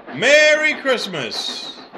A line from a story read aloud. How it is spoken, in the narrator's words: He cupped his hands around his mouth and shouted